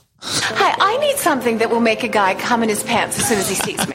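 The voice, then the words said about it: Lisa Barlow impression sounding like Samantha Jones. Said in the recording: “I'm just talking like Samantha now. ... my Lisa Barlow impression has turned into Samantha Jones.”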